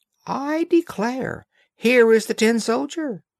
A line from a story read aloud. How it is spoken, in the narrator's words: a voice cried out